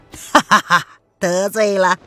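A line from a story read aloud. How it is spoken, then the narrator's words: Laughing middle-aged man. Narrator (Chinese): 那中年男人朝着岳子友笑道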